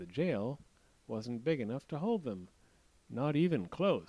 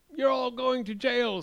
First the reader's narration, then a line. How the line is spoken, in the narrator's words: screamed the king